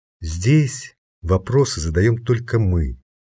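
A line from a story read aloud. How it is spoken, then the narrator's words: Almost gentle explanation. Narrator (Russian): почти ласково объяснил Хельмут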